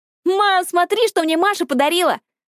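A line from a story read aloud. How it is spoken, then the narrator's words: Squealing. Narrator (Russian): завизжала Криста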